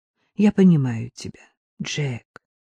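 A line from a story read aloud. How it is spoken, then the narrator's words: Sighed. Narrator (Russian): вздохнул мистер Лоусон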